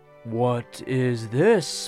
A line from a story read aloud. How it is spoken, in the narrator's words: my father asked in a low but prolonged voice